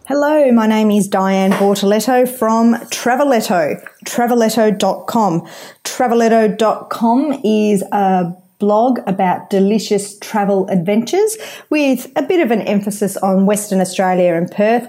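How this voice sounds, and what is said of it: Australian accent. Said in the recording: “another Aussie blogger, different accent again”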